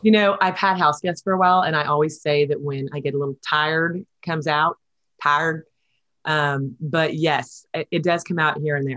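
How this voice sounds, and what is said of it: Texas accent. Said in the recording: “you still got that Texas accent going, which I love... I totally hear it”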